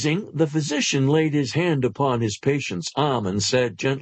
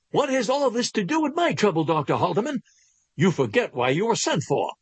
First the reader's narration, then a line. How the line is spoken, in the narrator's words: almost shouted